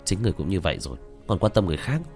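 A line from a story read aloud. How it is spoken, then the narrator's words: Startled mutter. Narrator (Vietnamese): Tạ Vô Tình cũng giật mình, lẩm bẩm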